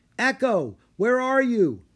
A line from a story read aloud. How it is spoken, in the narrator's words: Rory called out